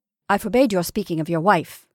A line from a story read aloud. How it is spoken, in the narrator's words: I said sharply